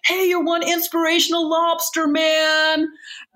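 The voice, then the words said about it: Put-on American accent. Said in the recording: “in American accent”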